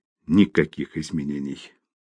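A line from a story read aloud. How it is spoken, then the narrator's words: Quiet. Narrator (Russian): тихо сказал врач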